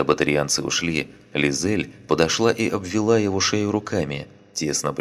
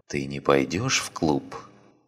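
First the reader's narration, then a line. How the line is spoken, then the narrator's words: Disappointed whisper in ear. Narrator (Russian): прошептала она ему в ухо, разочарованно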